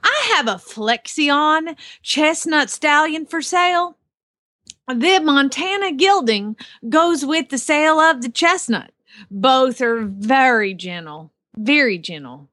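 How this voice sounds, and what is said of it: Put-on Southern Oklahoma accent. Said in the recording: “it sounds a lot like your southern accent ... It's Oklahoma. They're southern there.”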